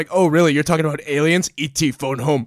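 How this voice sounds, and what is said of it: Imitated character voice, weird accent. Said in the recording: “delivered in the weirdest fucking accent”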